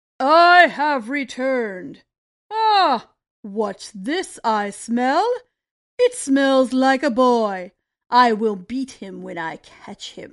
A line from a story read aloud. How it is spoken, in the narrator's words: The giant said in his booming voice